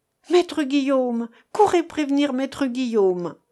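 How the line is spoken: Sudden cry. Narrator (French): Elle s'écria tout à coup

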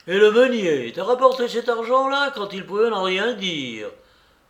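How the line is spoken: Astonished farmer exclaiming. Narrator (French): s'écria le fermier stupéfait

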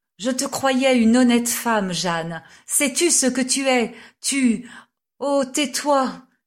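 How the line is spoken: Mother's pleading exclamation. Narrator (French): s'écria ma mère, avec un geste suppliant

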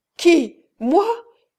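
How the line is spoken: Shouting. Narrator (French): cria Renzo

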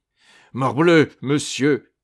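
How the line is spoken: Baron growling. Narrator (French): gronda le baron

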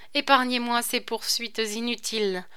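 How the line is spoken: Plain. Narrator (French): répondit Isabelle

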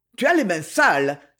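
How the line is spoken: Cry. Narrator (French): s'écria M

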